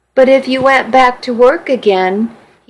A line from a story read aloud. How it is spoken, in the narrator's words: said